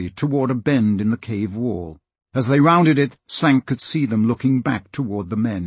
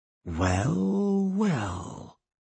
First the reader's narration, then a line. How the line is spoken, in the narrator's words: he said softly